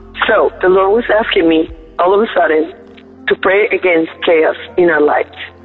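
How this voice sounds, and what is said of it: Congested voice from a cold. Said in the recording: “I have a bad cold.”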